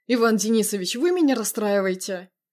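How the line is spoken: Suppressing laughter. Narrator (Russian): Витя едва сдерживался, чтобы не расхохотаться

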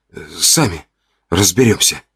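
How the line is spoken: Muttered, head down. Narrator (Russian): Буркнул, опустив голову и не глядя никому в глаза

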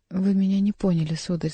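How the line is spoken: Sad. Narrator (Russian): сказала Диана грустно

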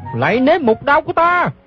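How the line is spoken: Shout. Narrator (Vietnamese): Gã la lên

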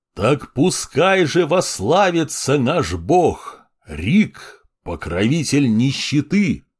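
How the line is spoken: Roaring. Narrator (Russian): взревел Никита

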